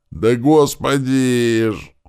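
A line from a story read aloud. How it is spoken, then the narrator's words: Howling. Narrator (Russian): аж взвыл тот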